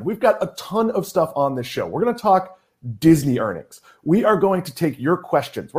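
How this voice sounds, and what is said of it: Excited, energetic delivery. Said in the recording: “If I sound excited, it's because I am excited.”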